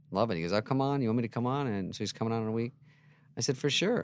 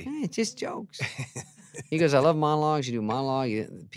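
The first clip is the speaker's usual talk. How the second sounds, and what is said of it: Imitates another person's voice. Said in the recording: “do a Leno impersonation ... Because it's bad. ... It's so easy.”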